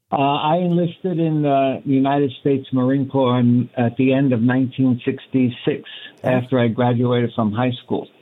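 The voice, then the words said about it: Brooklyn New York accent. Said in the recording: “I'm originally from Brooklyn, New York, and I'm sure everybody can tell by my accent.”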